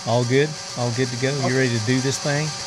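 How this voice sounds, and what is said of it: Southern US accent. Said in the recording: “That's the Southern thing. ... I'm from Tennessee. In case you couldn't tell by my accent.”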